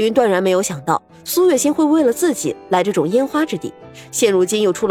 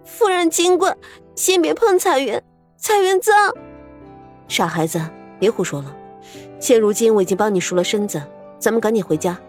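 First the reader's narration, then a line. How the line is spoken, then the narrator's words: Choked with sobs. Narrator (Chinese): 彩云 哽咽开口道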